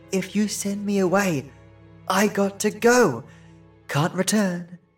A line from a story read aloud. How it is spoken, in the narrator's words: she whispered